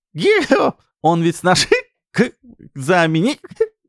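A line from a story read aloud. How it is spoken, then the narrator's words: Loud laughter. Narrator (Russian): Рыкова громко рассмеялась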